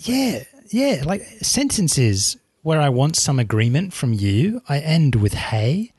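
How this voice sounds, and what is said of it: English accent turning Australian, less posh. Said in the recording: “I've lost my English accent... my voice sounds a little less posh than it used to... I'm Australian.”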